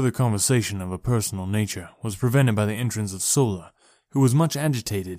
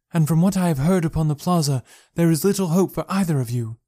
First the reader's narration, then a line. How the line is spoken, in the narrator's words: cried